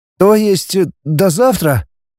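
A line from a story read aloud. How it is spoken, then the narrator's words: Suddenly hoarse voice. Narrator (Russian): внезапно севшим голосом проговорил Денис ей в спину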